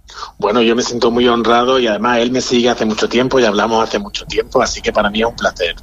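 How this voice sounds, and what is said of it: Granada Andalusian Spanish accent. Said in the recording (Spanish): “ahí está ese acento granadino”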